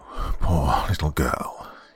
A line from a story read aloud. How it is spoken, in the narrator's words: he murmured